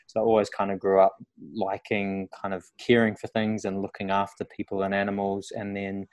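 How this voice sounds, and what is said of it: New Zealand accent. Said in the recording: “I'm from New Zealand originally, which you probably tell by the accent.”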